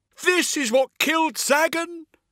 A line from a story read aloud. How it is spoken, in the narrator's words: Latio shouted, incredulous